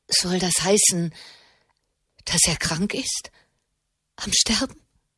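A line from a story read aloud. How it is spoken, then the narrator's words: Trembling voice. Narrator (German): fragte Alessia mit zitternder Stimme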